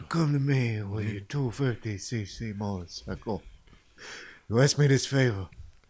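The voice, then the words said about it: Godfather-style mobster voice. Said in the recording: “We're doing like Godfather or something.”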